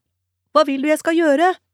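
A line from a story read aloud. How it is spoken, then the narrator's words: Shouting back. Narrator (Norwegian): ropte hun tilbake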